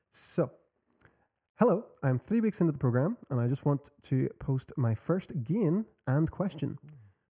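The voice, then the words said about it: Mixed American, Australian, British accent. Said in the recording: “I have a mixed accent. ... part American, part Australian, part British.”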